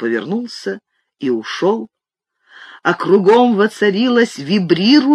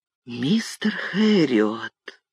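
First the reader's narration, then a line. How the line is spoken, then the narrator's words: Whispered. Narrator (Russian): шепнул он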